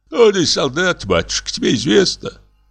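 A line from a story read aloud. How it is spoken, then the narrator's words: Old man's weak voice. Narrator (Russian): ответил слабым голосом старик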